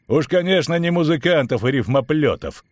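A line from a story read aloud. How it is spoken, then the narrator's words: Laughing. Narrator (Russian): хохотнул Ярпин Зигрин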